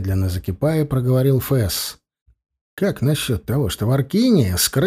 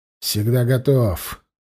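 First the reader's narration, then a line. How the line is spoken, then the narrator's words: Grumbling, hiding a tremble. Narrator (Russian): проворчал Фесс, пытаясь скрыть бьющую его дрожь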